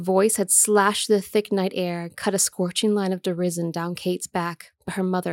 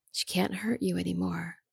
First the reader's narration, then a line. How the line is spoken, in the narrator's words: her mother whispered from some long-forgotten memory